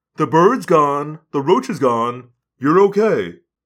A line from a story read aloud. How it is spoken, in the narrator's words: my father said soothingly